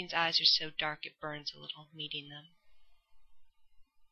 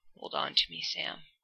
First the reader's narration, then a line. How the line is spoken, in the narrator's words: Dean growls